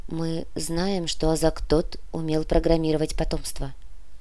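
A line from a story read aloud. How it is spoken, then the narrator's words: Quiet. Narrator (Russian): негромко проговорила Мирослава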